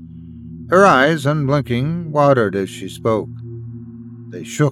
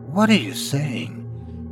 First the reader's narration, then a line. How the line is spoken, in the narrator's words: Nate asked, his voice barely a whisper